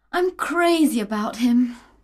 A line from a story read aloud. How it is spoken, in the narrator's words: cried